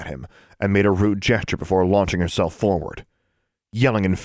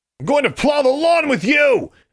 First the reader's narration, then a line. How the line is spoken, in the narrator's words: he yelled, yards behind her